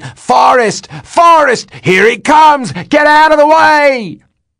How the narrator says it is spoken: still hollering

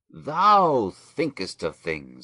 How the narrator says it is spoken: exclaimed

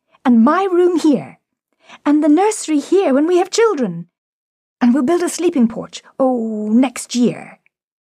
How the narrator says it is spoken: they cried in turn

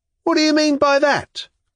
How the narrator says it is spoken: cried a voice in the crowd

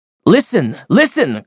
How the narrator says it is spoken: cried Chatterton at the drill

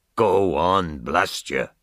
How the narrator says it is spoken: Ben Dollard growled

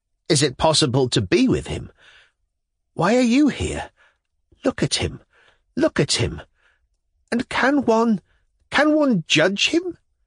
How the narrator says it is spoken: Her face was full of infinite suffering and infinite compassion as, exclaiming this

